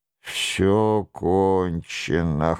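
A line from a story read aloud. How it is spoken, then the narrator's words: Hoarse wheezing. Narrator (Russian): хрипел Нострадамус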